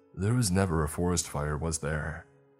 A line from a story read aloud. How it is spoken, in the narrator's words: She sighed